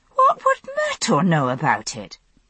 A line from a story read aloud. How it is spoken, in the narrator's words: I said indignantly